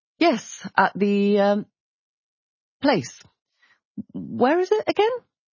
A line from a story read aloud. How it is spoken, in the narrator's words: He laughed frowningly